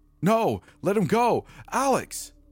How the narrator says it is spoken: my sister yelled

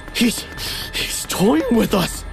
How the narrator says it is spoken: I panted

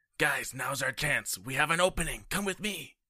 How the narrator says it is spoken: I'm going to whisper to Kor and Prince Brisbane

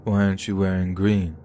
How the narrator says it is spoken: he asked me, slurring his words

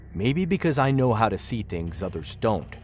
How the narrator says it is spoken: Glenn answered curtly

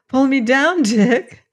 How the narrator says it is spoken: Dorothy laughed

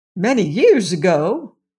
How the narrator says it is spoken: exclaimed Aunt Em

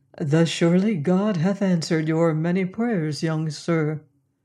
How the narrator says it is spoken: my companion spake in his soft, dispassionate voice

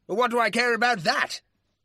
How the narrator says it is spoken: the baronet said angrily

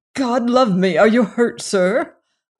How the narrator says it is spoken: I cried

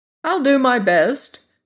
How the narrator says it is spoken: returned the sawhorse cheerfully

